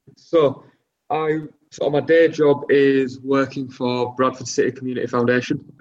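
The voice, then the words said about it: Bradford, Northern English accent. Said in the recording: “who is from Bradford, as you can tell from his accent.”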